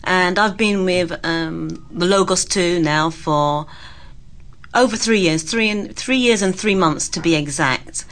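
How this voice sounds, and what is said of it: London English accent. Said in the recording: “I think my accent gives me away. I'm born and raised in London, England.”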